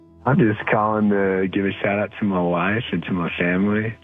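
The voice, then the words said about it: Cute voice with a drawl. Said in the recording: “Are you as cute as your little drawl ... with the cute voice”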